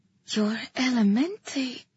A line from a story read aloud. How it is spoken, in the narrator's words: I breathed